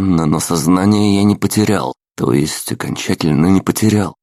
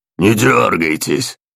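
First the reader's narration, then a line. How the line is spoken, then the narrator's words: Menacing growl. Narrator (Russian): угрожающе рыкнул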